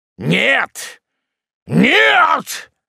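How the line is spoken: Sudden terrifying shout. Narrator (Russian): закричал вдруг малорослый страшным голосом

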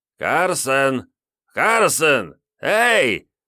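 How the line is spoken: Loud calling. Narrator (Russian): громко позвал Дешалис

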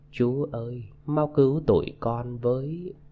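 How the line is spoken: Low whisper near ear. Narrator (Vietnamese): bên tai có người thấp giọng thủ thỉ

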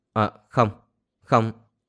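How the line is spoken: Embarrassed stammer. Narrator (Vietnamese): Đề Nghiêu mặt nóng bừng, ấp úng nói

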